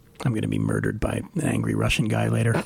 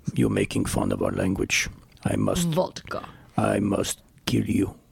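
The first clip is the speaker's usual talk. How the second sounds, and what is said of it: Terrible put-on Russian accent. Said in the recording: “That was a terrible Russian accent.”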